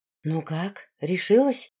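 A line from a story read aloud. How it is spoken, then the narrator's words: Whispered question. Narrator (Russian): шепотом спросила девушка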